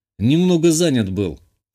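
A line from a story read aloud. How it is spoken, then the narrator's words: Snorting. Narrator (Russian): хмыкнул я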